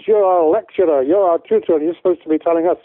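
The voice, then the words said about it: Deliberately poor put-on Scottish accent. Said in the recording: “that's a really bad Scottish accent”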